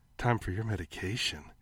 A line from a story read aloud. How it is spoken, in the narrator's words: she purred